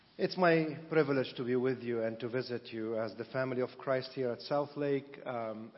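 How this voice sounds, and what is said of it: Speaks English with a noticeable accent. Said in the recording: “they would enjoy my accent probably more than they are ... Don't let my accent distort the gospel from your ears and your hearts ... with a better accent”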